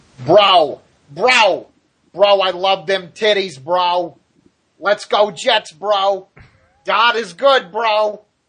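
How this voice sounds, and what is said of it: Vince Russo impression. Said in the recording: “my Vince Russo impression”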